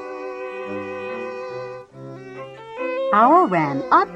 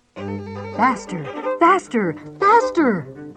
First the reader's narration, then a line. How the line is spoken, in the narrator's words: cried Owl